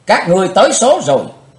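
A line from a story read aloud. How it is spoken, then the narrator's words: Hateful scream. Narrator (Vietnamese): Chí Tôn thét hận thù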